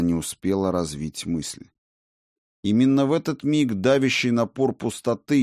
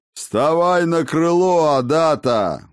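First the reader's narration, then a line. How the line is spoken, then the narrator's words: Roaring. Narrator (Russian): взревел Ракот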